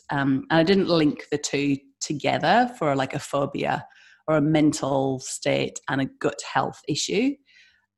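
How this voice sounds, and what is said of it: British accent. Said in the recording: “as you can hear my accent, I'm from the UK”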